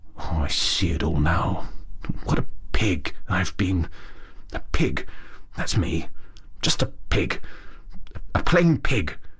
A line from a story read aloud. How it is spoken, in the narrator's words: he muttered gloomily